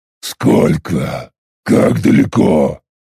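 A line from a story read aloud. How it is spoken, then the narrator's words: Growling. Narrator (Russian): прорычал я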